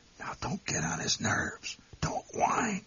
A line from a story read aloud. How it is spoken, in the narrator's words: My mother whispered